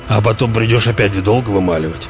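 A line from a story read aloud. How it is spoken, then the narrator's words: Smirking grunt. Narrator (Russian): хмыкнул Бубна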